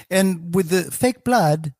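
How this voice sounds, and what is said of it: Put-on English accent. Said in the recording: “Why did I go to an English accent for that?”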